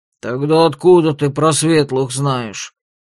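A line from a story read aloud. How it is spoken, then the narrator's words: Angry growl. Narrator (Russian): сердито рыкнул Дун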